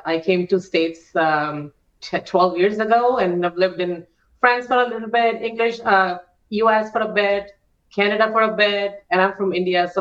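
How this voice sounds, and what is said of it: Very strong mixed foreign accent. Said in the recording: “my accent is all over the place ... I have a very, very strong accent ... some of these words sound really crazy”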